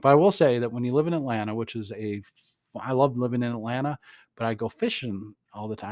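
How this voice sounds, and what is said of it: Southern US redneck accent. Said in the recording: “Reducated redneck is my accent ... the Google translation of the podcast just struggles with my accent”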